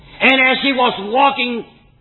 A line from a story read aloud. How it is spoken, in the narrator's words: he shouted